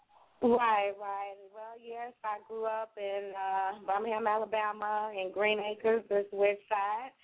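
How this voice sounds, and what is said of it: Birmingham, Alabama Southern accent. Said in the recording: “you was born in Birmingham, Alabama, right? I could tell by your accent also.”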